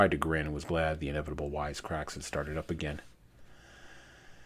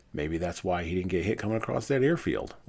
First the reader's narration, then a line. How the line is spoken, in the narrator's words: laughed another